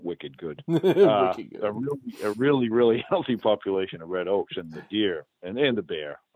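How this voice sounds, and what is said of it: New England accent. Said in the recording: “that's my New England accent”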